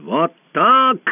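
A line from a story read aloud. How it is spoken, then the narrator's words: Furious shout. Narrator (Russian): закричал в бешенстве узурпатор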